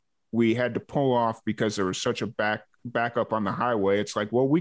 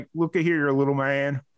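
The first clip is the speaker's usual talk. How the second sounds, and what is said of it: Put-on southern accent. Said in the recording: “his little southern accent”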